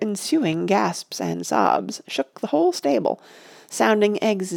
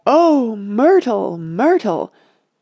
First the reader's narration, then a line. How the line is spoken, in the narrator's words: cried an answering giantess in tones of horror